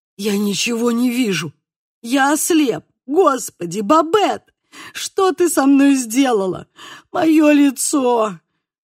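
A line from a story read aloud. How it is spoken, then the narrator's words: Whimpering and moaning. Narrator (Russian): Проскулил он и снова застонал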